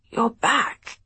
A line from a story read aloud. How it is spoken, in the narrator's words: croaked